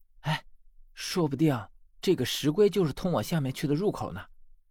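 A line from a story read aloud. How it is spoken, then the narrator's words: Whispering. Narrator (Chinese): 十三小声和我说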